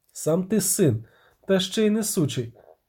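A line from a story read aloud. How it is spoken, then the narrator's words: Plain. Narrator (Ukrainian): сказав Ярпен Зігрін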